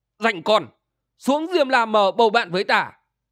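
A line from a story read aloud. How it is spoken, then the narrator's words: Strained shout through gritted teeth. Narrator (Vietnamese): gã vội nghiến chặt răng, cố vận chút sức tàn ... quát lớn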